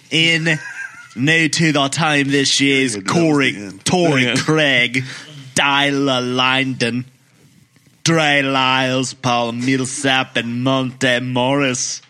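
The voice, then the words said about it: Poor put-on Australian accent. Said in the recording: “Why don't you give us an Australian accent? ... That's the worst Australian.”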